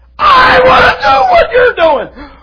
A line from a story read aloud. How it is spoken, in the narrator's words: he yells